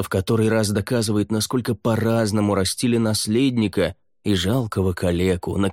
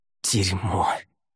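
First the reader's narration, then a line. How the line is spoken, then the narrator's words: Hissed through teeth. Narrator (Russian): сквозь зубы прошипел он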